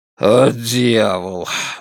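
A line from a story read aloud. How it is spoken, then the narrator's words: Muttering. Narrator (Russian): бормочет Дон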